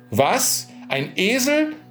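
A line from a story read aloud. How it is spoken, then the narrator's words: Priest calling out. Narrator (German): rief der Pfarrer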